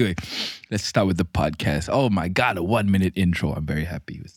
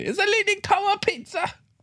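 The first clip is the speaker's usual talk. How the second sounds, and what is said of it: Exaggerated high-pitched Italian accent. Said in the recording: “when I want to make an accent ridiculous, I go really high pitch”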